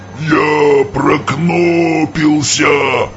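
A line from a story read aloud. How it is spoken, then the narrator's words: Growling. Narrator (Russian): рычал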